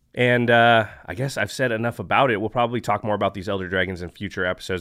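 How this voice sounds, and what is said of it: Deeper, rougher tired voice. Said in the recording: “my voice is maybe sounding a little bit deeper, a little bit more tough and rugged ... I'm super exhausted and a little bit getting sick”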